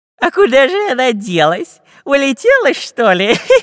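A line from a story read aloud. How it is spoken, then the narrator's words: Nasty giggle. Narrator (Russian): Противным голосом захихикал Дырка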